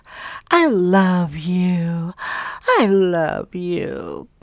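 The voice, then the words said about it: Breathy baby voice. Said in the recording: “That's how one of my friends talks... Like that Marilyn Monroe breathy baby voice.”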